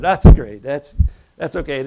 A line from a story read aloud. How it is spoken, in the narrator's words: he laughs and he said